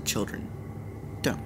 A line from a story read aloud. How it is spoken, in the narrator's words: Marilis said gently